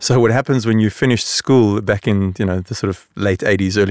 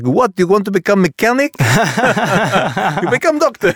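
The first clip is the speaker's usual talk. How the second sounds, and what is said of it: Poor imitation of a Lebanese accent. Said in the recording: “I do a very bad Lebanese accent”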